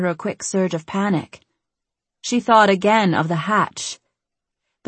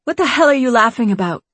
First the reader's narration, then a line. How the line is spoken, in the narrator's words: Ellie snapped